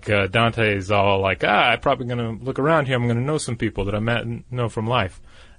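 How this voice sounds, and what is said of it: Mild put-on Italian accent. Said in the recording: “is that your Italian accent? ... Very mildly.”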